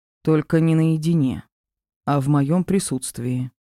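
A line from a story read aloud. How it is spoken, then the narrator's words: Heavy sighing. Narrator (Russian): добавил, тяжело вздохнув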